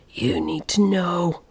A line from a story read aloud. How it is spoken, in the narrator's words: snarled